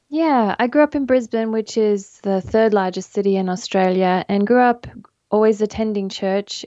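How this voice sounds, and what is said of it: Australian accent. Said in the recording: “people will gather from your accent, you are originally from Australia”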